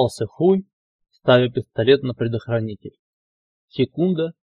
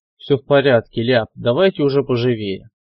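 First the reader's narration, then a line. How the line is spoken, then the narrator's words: Slightly irritated urging. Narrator (Russian): поторопил он их немного раздраженно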